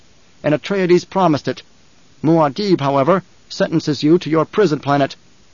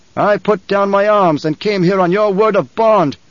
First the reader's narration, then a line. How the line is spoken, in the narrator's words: the Emperor shouted